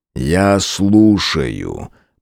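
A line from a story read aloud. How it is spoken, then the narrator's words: Growled. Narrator (Russian): прорычал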